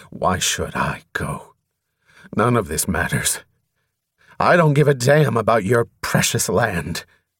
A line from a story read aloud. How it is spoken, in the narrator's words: Because Atyaran was his only companion, he growled at her